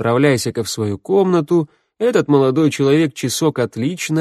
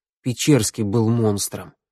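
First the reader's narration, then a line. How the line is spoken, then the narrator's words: Forced through clenched teeth. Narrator (Russian): выдавил я сквозь зубы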